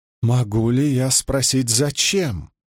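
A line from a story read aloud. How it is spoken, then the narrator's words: Hesitant slow mutter. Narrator (Russian): Но под строгим взглядом Эгвейн запнулась, сглотнула и медленно пробормотала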